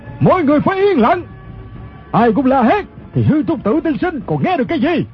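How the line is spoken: Leader's shout. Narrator (Vietnamese): quát lên chính là thủ lãnh quần hào Ô Lão Đại

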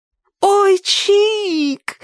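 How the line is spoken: Ecstatic shriek. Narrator (Russian): восторженно завопила Сонька

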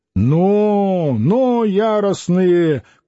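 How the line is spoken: Shout. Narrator (Russian): крикнул он

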